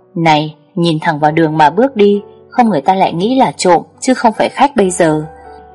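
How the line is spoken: Laughing. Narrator (Vietnamese): Tôi bật cười nói

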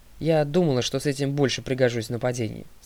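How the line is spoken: Plain. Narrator (Russian): сказала Талия

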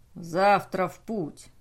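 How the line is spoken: Growling. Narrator (Russian): прорычал Эйкер

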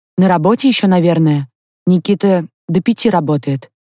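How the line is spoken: Flat, colorless voice. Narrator (Russian): бесцветным голосом ответила Инна

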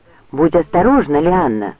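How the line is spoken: Exclaimed, male. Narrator (Russian): воскликнул он

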